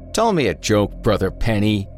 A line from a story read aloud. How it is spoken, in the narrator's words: he bellowed, fully expecting laughter to break out at any moment